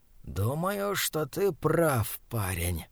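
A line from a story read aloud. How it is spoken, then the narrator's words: Hissed. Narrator (Russian): прошипел он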